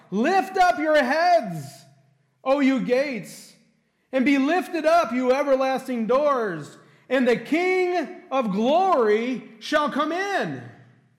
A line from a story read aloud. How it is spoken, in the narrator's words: Here's the herald as he is approaching the city, and he's hollering out